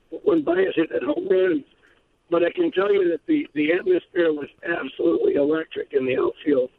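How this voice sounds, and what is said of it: Hoarse, strained voice. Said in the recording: “I'm a little bit hoarse because I kind of threw my voice out last night.”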